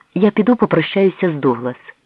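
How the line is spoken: Exclaimed. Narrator (Ukrainian): вигукнула Мері

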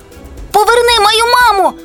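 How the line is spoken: Sudden shout. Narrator (Ukrainian): закричав раптово

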